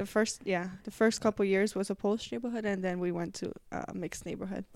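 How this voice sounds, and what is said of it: Noticeable foreign accent. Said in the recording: “you still have your accent. It's super cute, though”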